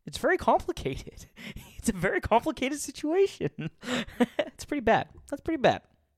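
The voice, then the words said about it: Weak Jordan Peterson impression. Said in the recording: “to borrow from Jordan Peterson in my best worst impersonation ... Not my best one.”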